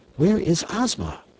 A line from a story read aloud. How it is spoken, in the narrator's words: inquired Dorothy anxiously